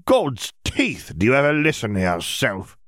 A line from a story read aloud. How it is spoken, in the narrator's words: Mosaber sneered